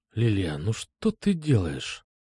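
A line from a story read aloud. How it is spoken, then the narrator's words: Strained whisper. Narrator (Russian): Прошептал я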